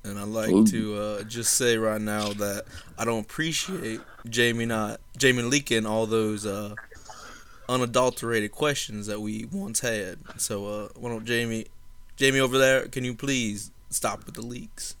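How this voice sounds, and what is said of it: Put-on Savannah Southern accent. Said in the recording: “Tell me your best Savannah accent ... this is my Savannah accent ... That was a solid 5.9.”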